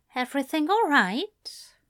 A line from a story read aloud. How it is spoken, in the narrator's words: Ezra asked softly